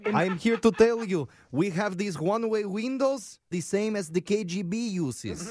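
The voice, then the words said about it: Fake foreign accent. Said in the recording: “putting on a stupid fake accent”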